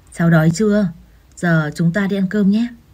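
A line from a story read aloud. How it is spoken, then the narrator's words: Hesitant. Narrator (Vietnamese): Chú Dũng ngập ngừng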